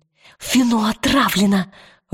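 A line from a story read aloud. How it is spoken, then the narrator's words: Forced through clenched teeth. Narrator (Russian): выдавила она сквозь зубы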